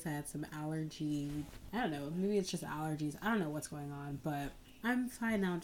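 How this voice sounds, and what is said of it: Congested, stuffy-nosed voice. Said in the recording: “You can kind of hear it in my voice... Just really congested”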